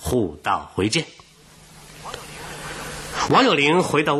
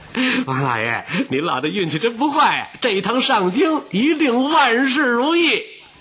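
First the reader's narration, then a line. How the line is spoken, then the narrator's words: Cheerful, grinning. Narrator (Chinese): 他笑嘻嘻地说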